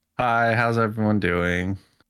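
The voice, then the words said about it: Flat, unenthusiastic tone. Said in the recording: “You sound super excited.”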